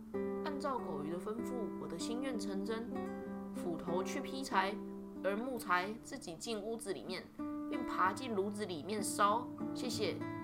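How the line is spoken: Very quiet voice. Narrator (Chinese): 他就小小声的说

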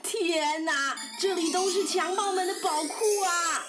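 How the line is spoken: Excited shout. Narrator (Chinese): 兴奋的阿里巴巴大喊

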